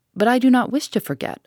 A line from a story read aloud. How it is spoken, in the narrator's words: replied